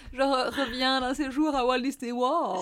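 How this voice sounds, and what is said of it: Posh bourgeois French accent. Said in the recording (French): “C'était l'accent bourgeois”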